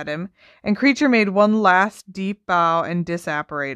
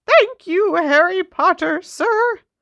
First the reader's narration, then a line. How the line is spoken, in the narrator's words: squeaked Dobby happily